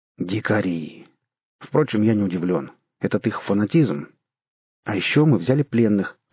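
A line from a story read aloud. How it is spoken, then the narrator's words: Solemn announcement. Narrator (Russian): торжественно объявил Дитль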